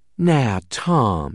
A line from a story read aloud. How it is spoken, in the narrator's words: drawled Misty